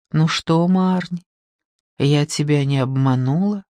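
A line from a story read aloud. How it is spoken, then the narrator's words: Whisper. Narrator (Russian): прошептала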